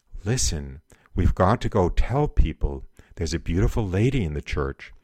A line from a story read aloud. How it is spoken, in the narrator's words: Jacqueline whispered